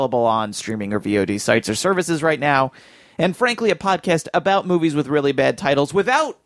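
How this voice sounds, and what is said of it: Usual voice. Nothing is said of it.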